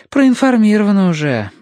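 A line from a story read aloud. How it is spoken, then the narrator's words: Sighing. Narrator (Russian): вздохнула Татьяна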